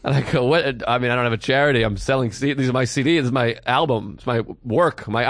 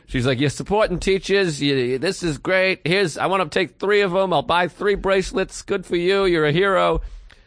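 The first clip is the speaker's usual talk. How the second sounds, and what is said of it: Put-on Boston accent. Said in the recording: “I'm giving her a Boston accent. That's the only accent I can do.”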